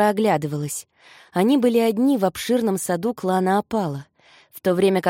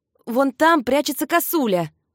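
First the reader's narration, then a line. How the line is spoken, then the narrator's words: Shout. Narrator (Russian): прокричал Люсьен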